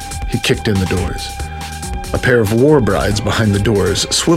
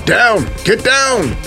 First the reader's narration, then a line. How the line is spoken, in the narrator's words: shouted Aris